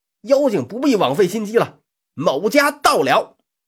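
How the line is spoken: Shout. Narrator (Chinese): 三娃大喊一声

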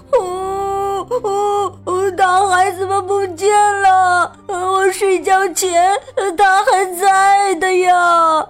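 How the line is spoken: Sudden crying. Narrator (Chinese): 皮鲁突然哭起来

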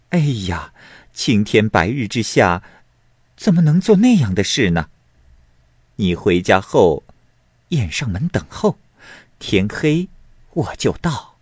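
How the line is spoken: Laughing young woman. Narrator (Chinese): 少妇笑着说

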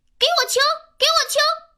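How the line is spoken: Angry tantrum yelling. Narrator (Chinese): 脾气大王发脾气了，大喊大叫

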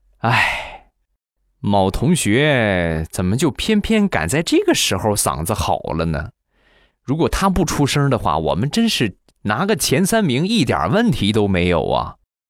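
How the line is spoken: Helpless sigh. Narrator (Chinese): 我们系领导望洋兴叹

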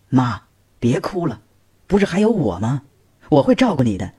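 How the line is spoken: Sighing, gently persuading. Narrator (Chinese): 女儿叹了口气，劝道

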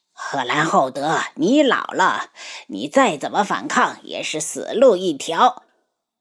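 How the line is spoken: Leader laughing loudly. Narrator (Chinese): 黑衣人首领大笑起来

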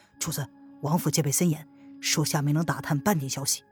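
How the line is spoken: Deep, respectful voice. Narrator (Chinese): 他沉声的说道

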